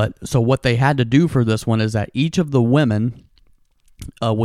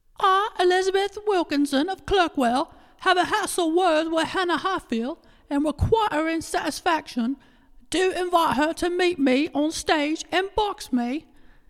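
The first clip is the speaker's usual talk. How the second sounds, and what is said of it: Put-on old-fashioned English accent. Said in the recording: “my old school English accent”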